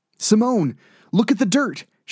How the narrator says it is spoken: she called out

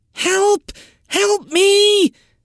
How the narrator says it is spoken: a young voice scream

